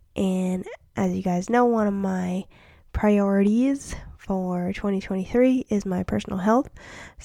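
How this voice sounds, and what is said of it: Slightly scratchy voice. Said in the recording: “My voice is starting to get a little scratchy ... my cold”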